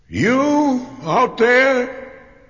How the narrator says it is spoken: he cried

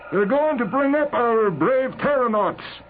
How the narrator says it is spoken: Clayball shouted

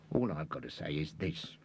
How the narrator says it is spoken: growled Carter

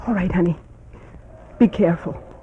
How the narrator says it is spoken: Mamie's fingers dug into your biceps and she whispered

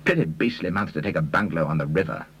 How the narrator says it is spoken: he grumbled

